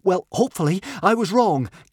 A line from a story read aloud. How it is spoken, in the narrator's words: gasped Fishlegs